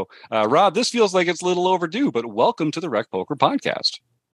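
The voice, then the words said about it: Radio announcer voice. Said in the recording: “you had such a radio voice ... I feel like I'm listening to a radio show”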